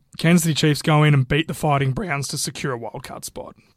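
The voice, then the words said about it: Voice sounds slightly off. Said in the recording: “my voice is a little bit off today”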